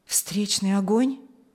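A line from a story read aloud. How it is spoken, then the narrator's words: Quiet question. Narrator (Russian): тихо поинтересовался он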